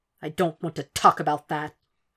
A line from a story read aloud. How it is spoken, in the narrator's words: Will snapped